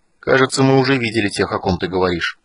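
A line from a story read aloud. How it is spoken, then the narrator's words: Gloomy remark. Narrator (Russian): мрачно заметил Танис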